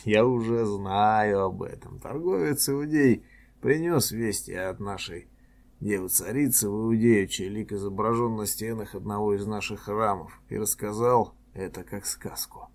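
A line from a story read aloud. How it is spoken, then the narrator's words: Laughing reply. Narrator (Russian): Я засмеялся и ответил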